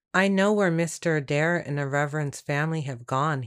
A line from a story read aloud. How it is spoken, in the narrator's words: he said